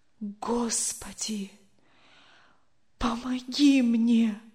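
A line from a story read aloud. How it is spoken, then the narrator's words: Whispered. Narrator (Russian): прошептал он наконец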